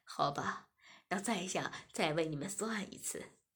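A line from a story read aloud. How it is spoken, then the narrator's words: Smiling. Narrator (Chinese): 妙珠笑了笑，便说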